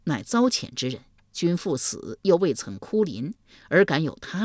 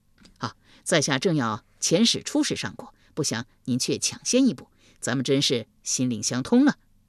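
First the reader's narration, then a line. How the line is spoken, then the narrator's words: Fawning, smiling. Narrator (Chinese): 夷吾一脸媚笑道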